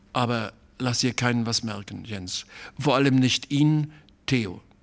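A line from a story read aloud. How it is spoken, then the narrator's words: Hesitant voice. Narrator (German): sagte er noch mit zögernder Stimme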